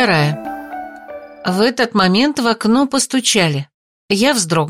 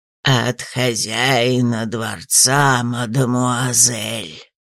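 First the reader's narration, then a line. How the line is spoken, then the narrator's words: Creaky owl voice. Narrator (Russian): проскрипел филин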